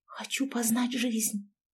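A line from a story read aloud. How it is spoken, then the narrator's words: Whisper. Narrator (Russian): прошептала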